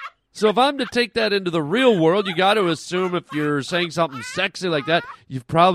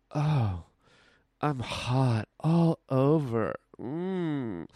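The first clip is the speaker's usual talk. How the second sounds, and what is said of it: Sultry, sexy voice. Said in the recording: “you probably have a sexy voice. ... here's what I'm hot all over LOL would sound like.”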